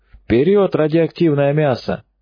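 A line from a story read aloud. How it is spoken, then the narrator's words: Cheerful barking shout. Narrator (Russian): бодро скалясь гаркнул Осипенко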